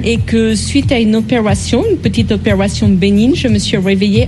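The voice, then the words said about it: Slight English accent in French. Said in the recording (French): “ce petit accent anglais”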